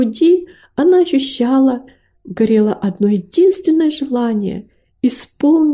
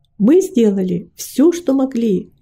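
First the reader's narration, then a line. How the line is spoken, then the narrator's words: Plain. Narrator (Russian): ответили они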